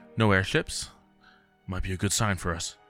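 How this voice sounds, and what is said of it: Low voice. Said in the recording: “in a low voice”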